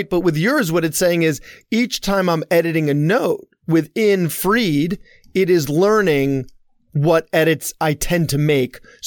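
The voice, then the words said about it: Heavy Long Island accent. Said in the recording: “what is very clearly a heavy Long Island accent”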